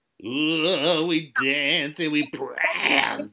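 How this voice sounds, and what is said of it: Nasal imitation of a rock singer. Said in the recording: “my Mustaine impression ... I don't think I can get as nasally”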